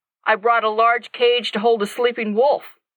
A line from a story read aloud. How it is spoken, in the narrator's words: Jack answered gruffly